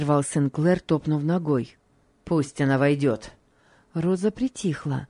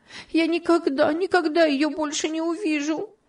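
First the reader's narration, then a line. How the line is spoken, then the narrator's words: Sobbing. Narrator (Russian): И она зарыдала вновь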